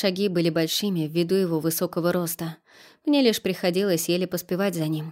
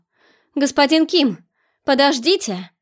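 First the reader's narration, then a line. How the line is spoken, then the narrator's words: Shout. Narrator (Russian): Крикнула я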